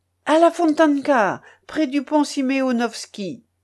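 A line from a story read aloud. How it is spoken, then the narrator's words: Shouting to coachman. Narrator (French): criai-je au cocher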